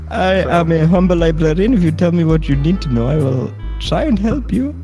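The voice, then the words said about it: Put-on German-French accent. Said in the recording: “mother was German and my father, he was French. So that is why I have the accent”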